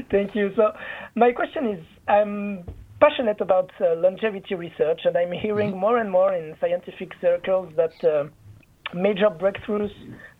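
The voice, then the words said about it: Swiss accent. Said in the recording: “based on your accent ... for someone coming from Switzerland”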